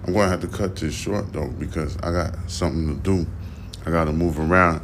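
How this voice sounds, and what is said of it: Tired-sounding voice. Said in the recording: “you can hear the tiredness in my voice,”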